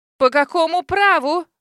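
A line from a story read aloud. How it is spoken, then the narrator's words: Shrill squeal. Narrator (Russian): взвизгнул Эндрю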